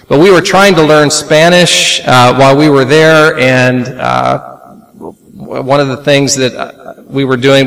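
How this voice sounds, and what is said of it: Slight Oklahoman accent. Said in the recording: “I speak Oklahoman... a little Oklahoman in my accent”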